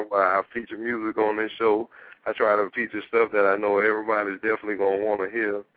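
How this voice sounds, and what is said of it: Southern US accent. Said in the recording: “We are Dirty South style, as you can understand by the accent ... I love your accent.”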